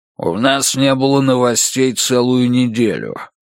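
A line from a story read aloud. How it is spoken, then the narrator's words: Growling voice. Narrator (Russian): сказал дядя Эдди, чей голос действительно напоминал рычание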